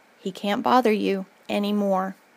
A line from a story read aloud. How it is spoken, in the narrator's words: My mom gently said